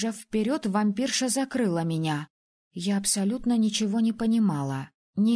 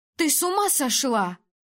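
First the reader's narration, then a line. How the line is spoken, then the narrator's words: Shouted. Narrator (Russian): выкрикнула Сай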